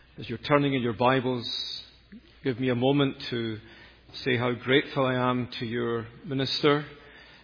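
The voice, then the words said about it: Scottish accent. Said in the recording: “You'll gather from my accent that I'm not from here, but at least you know I'm not from England. That would be the nadir for a Scotsman to be thought of as an Englishman.”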